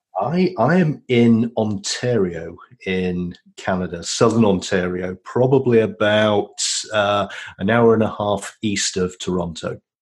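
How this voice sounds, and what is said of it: Yorkshire English accent. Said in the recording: “by your accent, you didn't always live in Toronto ... I'm a Yorkshireman by birth”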